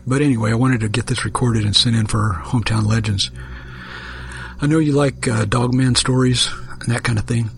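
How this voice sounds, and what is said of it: Rough, hoarse voice. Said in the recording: “if my voice sounds a little rough, it's because I'm kind of in the process of recovering from laryngitis. ... I had a cold that went right to my throat.”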